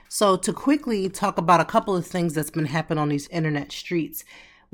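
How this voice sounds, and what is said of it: Voice still sounds sick. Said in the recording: “You probably can still hear it in my voice”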